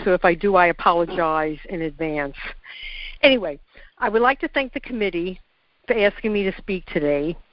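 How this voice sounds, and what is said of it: Congested voice from a cold. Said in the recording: “I have a cold, and I'm hoping I won't sneeze”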